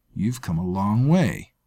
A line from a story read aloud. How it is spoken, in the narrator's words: sneered